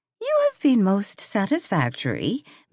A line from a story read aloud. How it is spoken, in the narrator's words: Mary Grayson had told her calmly